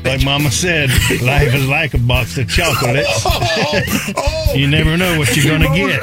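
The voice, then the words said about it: Forrest Gump character impression. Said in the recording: “my best Forrest Gump impression”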